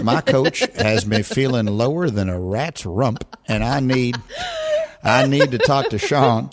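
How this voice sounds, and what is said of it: Jerry Jones impression. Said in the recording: “That's pretty good. ... I can't get the accent down.”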